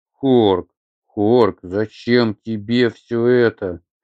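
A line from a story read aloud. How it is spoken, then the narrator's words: Wailing. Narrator (Russian): взвыла Атхи вновь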